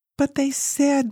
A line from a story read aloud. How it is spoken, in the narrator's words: wailed in response